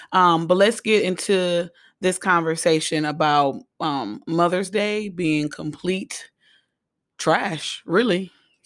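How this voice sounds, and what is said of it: Hoarse, recovering voice. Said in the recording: “excuse my voice. I am hoarse or coming off of being hoarse and not having a voice”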